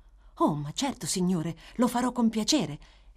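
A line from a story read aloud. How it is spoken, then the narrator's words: Eager honored exclamation. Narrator (Italian): esclamò Oliver, molto onorato da quell'incarico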